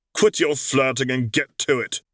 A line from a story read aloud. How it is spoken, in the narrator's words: Alon snapped